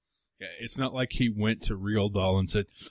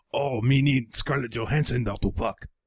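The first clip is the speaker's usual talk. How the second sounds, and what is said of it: Bad put-on Chinese accent. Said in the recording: “Sorry about the racist accent ... your Chinese accent is terrible”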